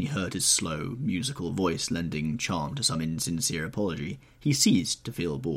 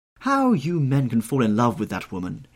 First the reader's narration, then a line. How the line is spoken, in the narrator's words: exclaimed the old lady